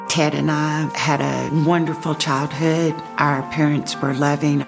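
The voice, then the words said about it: Slight accent. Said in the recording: “I love her little accent”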